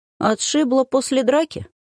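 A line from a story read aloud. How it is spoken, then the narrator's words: Cheerful question, young man. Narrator (Russian): весело уточнил парень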